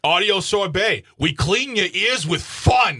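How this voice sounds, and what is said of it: Faded New York accent, hostile tone. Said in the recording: “Sounds a little hostile ... what is this accent? ... It's just enough to be funny, not enough to be offensive ... like a guy who moved out of New York like 30 years ago ... And still hostile.”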